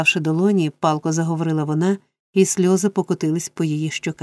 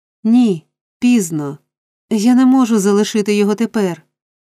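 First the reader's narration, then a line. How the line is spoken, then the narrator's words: Desperate cry. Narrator (Ukrainian): у розпачі вигукнула дівчина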